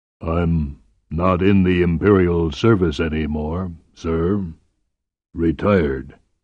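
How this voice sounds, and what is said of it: Deep bass monotone voice. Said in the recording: “Bothari's bass monotone”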